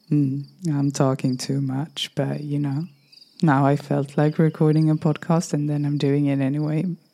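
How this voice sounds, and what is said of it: Strained, fading voice. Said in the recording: “my voice is a little bit, yeah, it's leaving me nowadays.”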